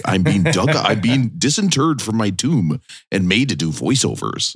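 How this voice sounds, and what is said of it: Imitates another person's voice. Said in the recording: “that was my good Casey Kasem impression”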